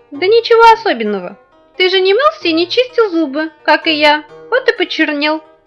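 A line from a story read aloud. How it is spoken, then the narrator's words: Cheerful reply, little man. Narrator (Russian): весело ответил человечек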